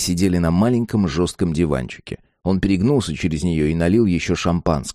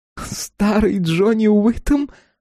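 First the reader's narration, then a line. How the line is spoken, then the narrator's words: Burst out laughing. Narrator (Russian): она расхохоталась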